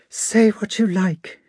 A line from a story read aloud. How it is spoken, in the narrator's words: exclaimed Sonia in a despairing voice